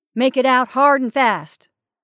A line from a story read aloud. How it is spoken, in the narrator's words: Wilder cried in the anger of surrender